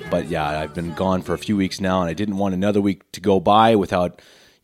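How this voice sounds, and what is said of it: Voice sounding unwell. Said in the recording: “As you can probably hear in my voice, I'm still not 100% at all.”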